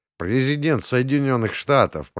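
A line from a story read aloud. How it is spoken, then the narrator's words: Muttered. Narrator (Russian): пробурчал я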